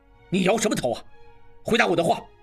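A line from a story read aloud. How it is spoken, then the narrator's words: Angry. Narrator (Chinese): 应季怒道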